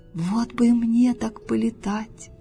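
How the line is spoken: Wistful sigh. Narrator (Russian): вздохнула жаба

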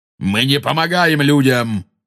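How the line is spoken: Angry centaur shout. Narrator (Russian): зло крикнул кентавр

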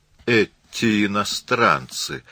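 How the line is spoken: Grumbling landlady. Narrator (Russian): проворчала хозяйка

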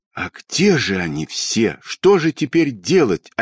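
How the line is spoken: Desperate voice. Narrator (Russian): отчаянным голосом сказала Тома

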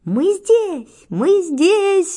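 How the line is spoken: Sudden shouting. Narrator (Russian): вдруг закричали

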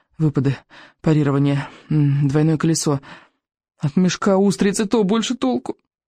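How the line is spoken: Muttering. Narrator (Russian): Рыбьенок бормотал

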